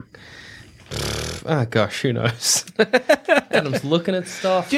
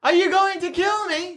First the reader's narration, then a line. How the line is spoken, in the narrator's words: She yells